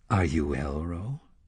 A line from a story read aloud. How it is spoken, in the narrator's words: she asked him softly